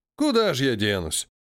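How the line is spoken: Old man's heavy sigh. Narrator (Russian): тяжело вздохнул старик

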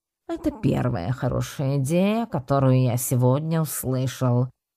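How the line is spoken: Grumbling. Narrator (Russian): проворчал Чупс

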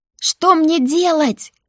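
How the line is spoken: Shout. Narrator (Russian): крикнула я

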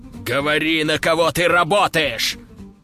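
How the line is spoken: Growling up close. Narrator (Russian): зарычал он мне прямо в лицо

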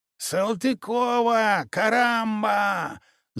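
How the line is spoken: Yelling. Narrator (Russian): завопил Тосик

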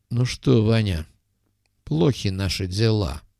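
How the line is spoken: Sad. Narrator (Russian): как-то грустно произнес Коперник

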